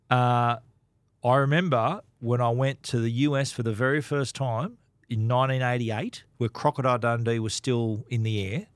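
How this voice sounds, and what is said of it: Australian accent. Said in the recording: “if you had an Aussie accent”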